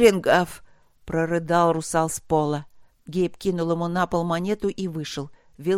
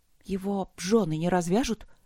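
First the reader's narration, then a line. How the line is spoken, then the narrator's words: Quiet question. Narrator (Russian): спросила она тихо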